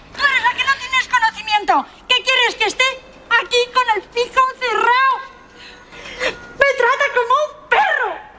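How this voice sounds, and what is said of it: Shouting. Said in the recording (Spanish): “no grites”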